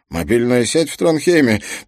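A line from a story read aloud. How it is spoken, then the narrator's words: Grumbling. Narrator (Russian): проворчал Туркельсон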